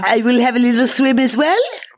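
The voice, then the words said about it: Funny put-on French Creole accent. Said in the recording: “a funny accent of the French Creole”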